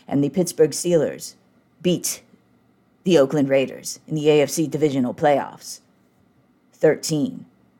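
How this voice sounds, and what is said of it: John Facenda NFL Films narrator impression. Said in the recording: “that was a great John Facenda impression.”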